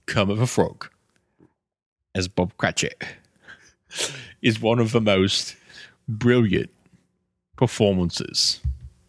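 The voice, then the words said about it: Imitates another person's voice. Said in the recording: “your Michael Caine impression”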